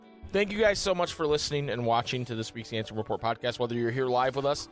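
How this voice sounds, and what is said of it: Hoarse, strained voice. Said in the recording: “I'm losing my voice a bit.”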